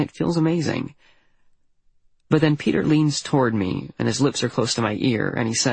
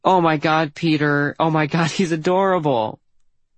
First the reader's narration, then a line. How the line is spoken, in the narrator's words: everyone is full-on belly laughing, and the one girl at the table says